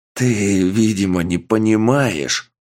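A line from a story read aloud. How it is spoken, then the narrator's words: Growling. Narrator (Russian): прорычал жандарм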